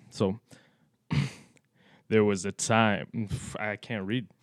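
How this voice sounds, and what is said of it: Sultry radio presenter voice. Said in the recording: “With your radio voice ... Here's my best radio voice ... Do the sultry”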